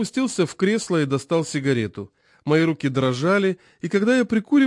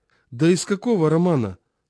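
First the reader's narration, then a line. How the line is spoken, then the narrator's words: Tired. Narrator (Russian): спросил я устало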